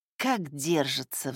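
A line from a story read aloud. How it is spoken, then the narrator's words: Sighing. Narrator (Russian): вздохнула Элеонора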